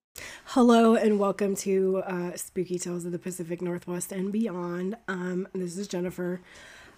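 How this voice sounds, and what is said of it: Hoarse, mildly congested voice. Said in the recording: “I've still got some hoarseness going on and some mild congestion”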